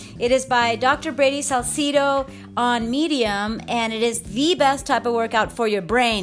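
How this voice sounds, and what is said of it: Excited, enthusiastic voice. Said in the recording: “As you can tell from my voice, I'm super excited, enthusiastic”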